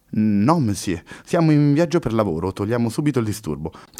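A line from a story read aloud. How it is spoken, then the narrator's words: Girl's trembling curt voice. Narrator (Italian): tagliò corto con voce tremante la ragazza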